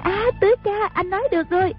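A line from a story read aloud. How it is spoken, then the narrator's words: Cry out. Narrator (Vietnamese): A Bích la lên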